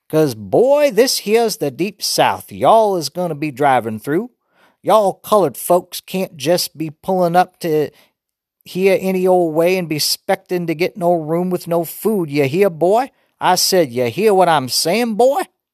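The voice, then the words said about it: Put-on Southern hillbilly accent. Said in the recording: “did an imitation of a hillbilly accent ... say some more Southern-style stuff”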